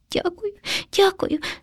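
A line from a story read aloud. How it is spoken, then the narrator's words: Frightened sobbing. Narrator (Ukrainian): схлипнув наляканий хом'ячок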